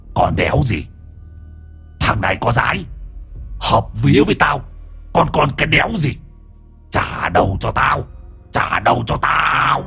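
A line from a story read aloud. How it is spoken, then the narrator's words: Growling voice. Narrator (Vietnamese): Hoàng Anh giọng gầm gừ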